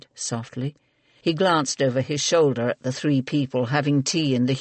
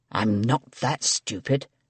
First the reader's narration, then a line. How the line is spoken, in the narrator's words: Sir Edmund hissed